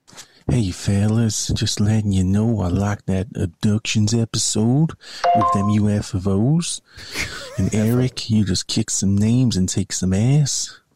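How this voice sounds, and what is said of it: Put-on dumb Northern American accent. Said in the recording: “his American accent is much worse than your English accent ... That wasn't too bad of American ... That's not American to me ... it was decent American. Decent, I mean, Northern American ... Sounds like an American just being a dummy ... I'm putting on a voice ... That's a Stone Cold Steve Austin thing there”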